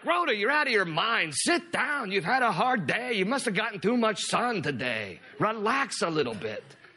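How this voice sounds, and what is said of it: Put-on Jewish accent. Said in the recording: “I know the whole Jewish accent tonight. I don't know where that's coming from”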